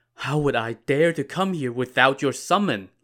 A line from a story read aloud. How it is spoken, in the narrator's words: Lin Chong pleaded